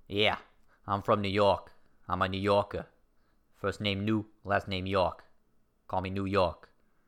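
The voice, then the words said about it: Put-on New York accent. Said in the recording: “This accent is starting to lose whatever it was trying to do.”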